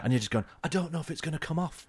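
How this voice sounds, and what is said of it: Put-on Northern English accent. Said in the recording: “I don't know why you develop a Northern accent.”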